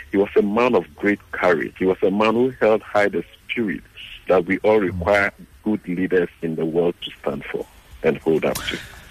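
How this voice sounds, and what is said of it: Ghanaian accent. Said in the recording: “you're also keeping your Ghanaian uh, accent.”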